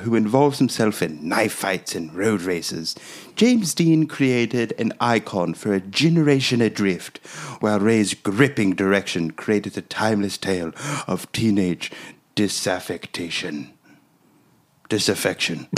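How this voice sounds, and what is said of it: Put-on British accent, reading aloud. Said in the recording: “doing his British guy voice, reading from the British magazine, Empire magazine”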